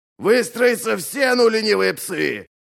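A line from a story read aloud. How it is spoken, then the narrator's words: Roar. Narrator (Russian): взревел Ральф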